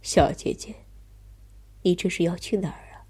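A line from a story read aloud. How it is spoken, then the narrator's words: Gentle question. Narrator (Chinese): 他柔声问道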